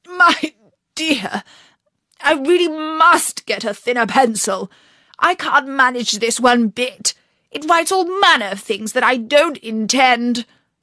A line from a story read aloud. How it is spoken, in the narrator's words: Alice was too strong for him, and at last he panted out